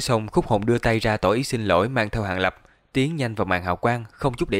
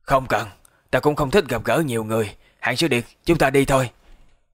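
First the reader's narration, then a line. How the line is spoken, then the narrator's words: Hoarse voice. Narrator (Vietnamese): Khúc Hồn một bên thủy chung không nói gì cũng mở miệng khàn khàn nói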